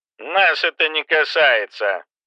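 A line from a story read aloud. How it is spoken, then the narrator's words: Muffled. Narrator (Russian): глухо произнес Кэмпбелл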